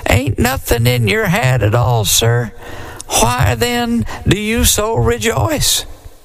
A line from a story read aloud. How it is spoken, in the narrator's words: said the deacon in a quivery little voice